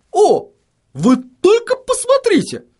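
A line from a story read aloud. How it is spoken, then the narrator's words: Surprised exclamation. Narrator (Russian): воскликнул он, словно чему-то крайне удивившись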